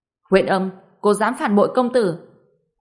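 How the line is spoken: Angry. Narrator (Vietnamese): Hầu sinh giận dữ

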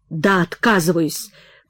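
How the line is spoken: Choked hoarse rasp. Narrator (Russian): прохрипел Прохор, перехваченный глоткой

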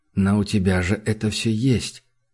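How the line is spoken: Quiet. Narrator (Russian): тихо сказал он

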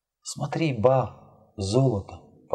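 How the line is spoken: Whispered. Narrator (Russian): прошептала

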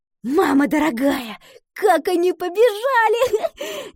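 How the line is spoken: Laughing. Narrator (Russian): засмеялась Гретхен

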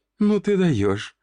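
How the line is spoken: Laughing to tears. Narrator (Russian): до слез смеялась

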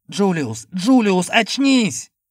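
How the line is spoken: Shout. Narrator (Russian): Я закричал

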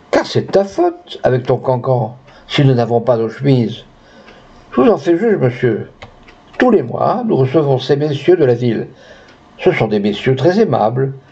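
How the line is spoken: Cat sighing. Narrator (French): soupira Madame le chat

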